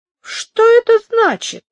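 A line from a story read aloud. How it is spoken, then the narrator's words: Heated exclamation. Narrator (Russian): запальчиво воскликнул Альфонс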